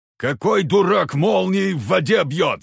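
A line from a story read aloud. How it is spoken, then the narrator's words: Angry yelling. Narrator (Russian): заорал Егор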